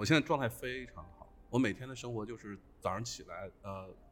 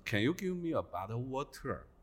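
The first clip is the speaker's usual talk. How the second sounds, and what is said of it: Southeast Asian, Thai-accented English. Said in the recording (Chinese): “我现在口音非常的东南亚 ... 泰国泰国口音是吗？ ... 这是泰国口音，这我听得出来”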